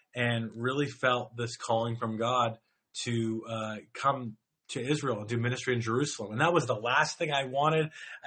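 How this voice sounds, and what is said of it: Canadian English accent. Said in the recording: “I grew up in the church from Toronto, Canada. If you can't tell from my accent, I'm not from around here, and I don't have an Israeli accent”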